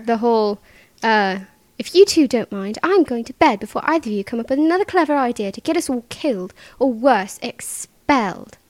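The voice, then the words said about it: British accent imitating Hermione Granger. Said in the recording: “that whole line from The Sorcerer's Stone is what started me on my British accent.”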